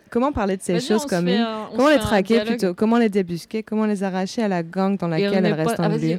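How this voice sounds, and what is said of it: Put-on Russian accent. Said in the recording (French): “L'accent russe. L'accent russe, allez.”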